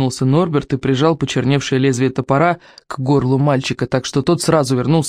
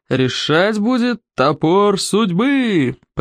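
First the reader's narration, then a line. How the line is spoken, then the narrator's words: Roared. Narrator (Russian): проревел Норберт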